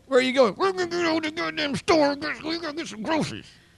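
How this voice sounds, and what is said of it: Put-on Texas accent, gritted teeth. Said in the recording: “you know how to do the Texas accent. It's really the way you have to grit your teeth”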